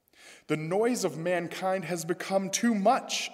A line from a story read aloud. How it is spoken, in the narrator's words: Enlil snapped